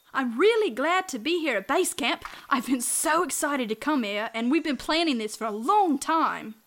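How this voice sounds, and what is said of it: Australian accent. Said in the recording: “Are you from another country?... My accent gave it away, huh? Yes, I'm from Australia.”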